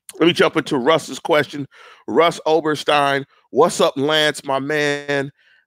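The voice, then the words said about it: Hoarse, fading voice. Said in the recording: “I was under the weather a little bit. I'm starting to lose my voice some.”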